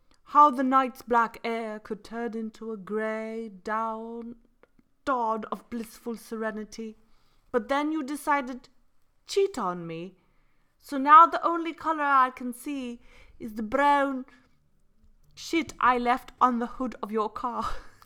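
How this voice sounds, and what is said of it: Put-on British accent. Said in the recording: “just because there's a British accent doesn't make it any more harsher ... all I could think of was that accent ... It was lovely ... It wasn't bad”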